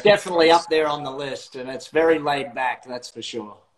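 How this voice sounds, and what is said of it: Australian accent. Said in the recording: “accent, I love me some Australian. I think Australian accent's the coolest accent”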